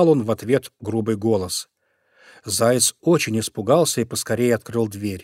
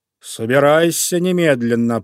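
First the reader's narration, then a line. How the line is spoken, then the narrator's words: Menacing growl. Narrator (Russian): прорычал он грозно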